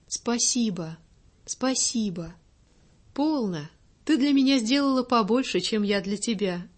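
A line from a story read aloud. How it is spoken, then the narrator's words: Gentle, pensive lady. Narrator (Russian): ласково, но задумчиво произнесла барыня, вспомнившая в эту минуту о смерти, которая вчера прошла так близко от ее Мика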